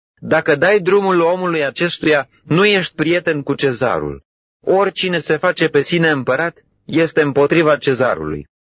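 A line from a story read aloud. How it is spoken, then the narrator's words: Crowd shouting. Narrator (Romanian): iudeii strigau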